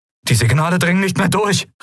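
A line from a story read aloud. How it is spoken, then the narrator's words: Calling out. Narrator (German): rief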